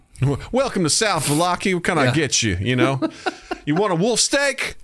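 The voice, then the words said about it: Put-on Southern bumpkin accent. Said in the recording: “I know Southern. So this whole town is going to be a bunch of Southern bumpkins ... this is a bunch of Southern bumpkins in this town, and that's how they're going to talk ... it's Southern”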